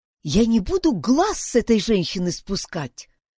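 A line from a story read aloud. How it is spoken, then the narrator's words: Whispered. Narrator (Russian): прошептала Юнис Фредерику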